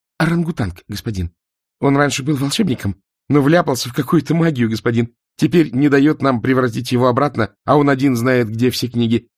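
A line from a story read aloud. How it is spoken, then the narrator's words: Rapid chatter. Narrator (Russian): протараторил Ринсвинд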